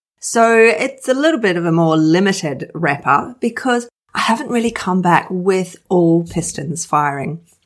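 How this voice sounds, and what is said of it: Rough, hoarse voice. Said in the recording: “As you can hear, my voice is a little bit rough still. My chest, I still want to cough.”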